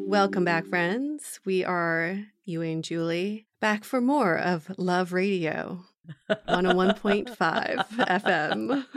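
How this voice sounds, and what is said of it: Sexy late-night radio DJ voice. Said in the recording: “That was a good sexy radio voice there.”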